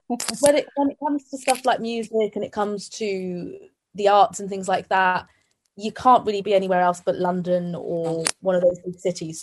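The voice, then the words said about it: British accent. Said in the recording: “My mum's from the UK. She's British, hence my accent.”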